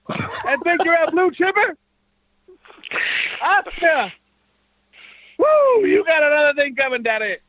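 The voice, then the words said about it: Weak Ric Flair impression. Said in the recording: “That sounded more like Goldust's father than Charles ... that was like a combination of Rick and Dusty ... my fucking impression. I wish I could do Rick Flair.”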